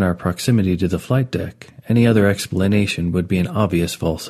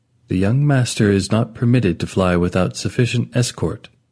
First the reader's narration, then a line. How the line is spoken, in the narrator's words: Stiffly replies